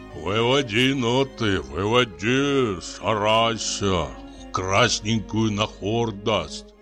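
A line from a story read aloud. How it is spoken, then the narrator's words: Muttering. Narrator (Russian): он бормочет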